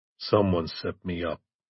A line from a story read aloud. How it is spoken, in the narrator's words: Brennan said in a low voice